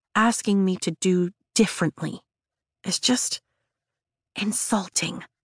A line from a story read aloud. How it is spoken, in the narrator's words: I whisper to him once I know we're alone in the tunnels